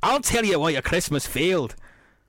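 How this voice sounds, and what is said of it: Poor put-on Scottish accent. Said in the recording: “Sorry for the accent ... I'm bad at Scottish ... somewhat Glaswegian-tinted voice”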